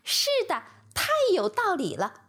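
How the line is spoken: Loud enthusiastic agreement. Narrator (Chinese): 这引起了孔雀的强烈共鸣，它大声叫道

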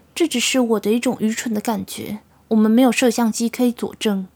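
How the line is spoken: Sighing. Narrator (Chinese): 纳奥米叹了一口气

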